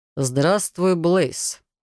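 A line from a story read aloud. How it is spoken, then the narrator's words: Dry, curt. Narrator (Russian): сухо обратился Райт к незнакомцу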